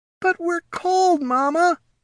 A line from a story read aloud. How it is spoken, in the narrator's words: whined a young Knoll